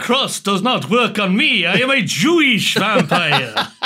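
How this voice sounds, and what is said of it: Impression of The Count from Sesame Street. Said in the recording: “The Count there coming in. ... Slipped into the accent. ... As a special guest from Sesame Street.”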